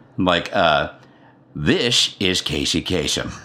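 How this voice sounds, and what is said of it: Imitates another person's voice. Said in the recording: “my impersonation ... Casey Kasem voice”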